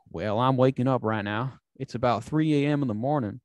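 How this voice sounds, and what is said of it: Imitates thick Alabama accent. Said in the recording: “the scientist from Alabama. He's got this thick accent.”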